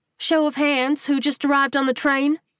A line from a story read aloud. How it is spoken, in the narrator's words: she asked, her voice carrying above the noise without being a yell